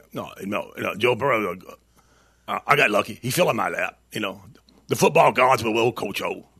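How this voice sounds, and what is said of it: Coach O impression. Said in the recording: “great at impersonations. Everybody has a Coach O impersonation. ... I got that pretty good. ... That's not bad.”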